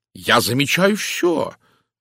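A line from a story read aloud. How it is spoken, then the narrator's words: Indignant reply. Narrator (Russian): возмущенно откликнулся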